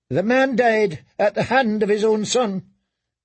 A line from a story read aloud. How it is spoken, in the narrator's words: Ilaria snapped back